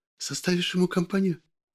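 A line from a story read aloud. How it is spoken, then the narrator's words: Whispered question. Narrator (Russian): шепотом спрашивает она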